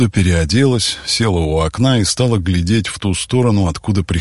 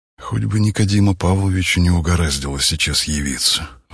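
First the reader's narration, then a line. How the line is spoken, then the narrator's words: Sighing. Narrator (Russian): вздохнула Василиса Михайловна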